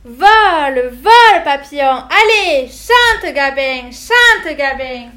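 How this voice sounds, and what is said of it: Off-key, shrill high-pitched singing voice. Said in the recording (French): “Avec une voix fausse et suraiguë.”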